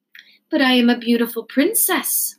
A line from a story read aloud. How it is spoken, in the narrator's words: said the princess